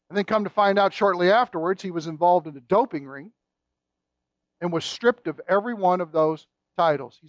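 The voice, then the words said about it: Kentucky accent. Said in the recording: “my Kentucky accent makes me say France”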